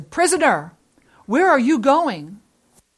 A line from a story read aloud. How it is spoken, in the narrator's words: the guard called out to him, and he said